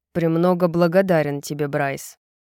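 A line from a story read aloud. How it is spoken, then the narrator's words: Sullen grumble. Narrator (Russian): угрюмо проворчал Тарион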